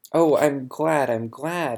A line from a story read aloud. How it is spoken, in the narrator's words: I exclaimed